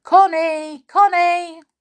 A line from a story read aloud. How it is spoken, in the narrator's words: He called loudly